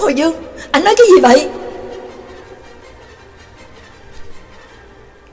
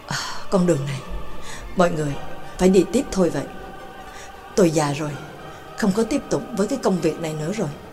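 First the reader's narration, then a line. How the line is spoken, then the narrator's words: Soft, weary voice. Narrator (Vietnamese): đội trưởng Hồ Dương khẽ nói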